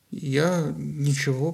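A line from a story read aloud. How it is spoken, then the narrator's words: Mumbled. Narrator (Russian): промямлил Парис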